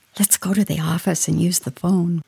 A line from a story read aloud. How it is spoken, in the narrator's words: whispered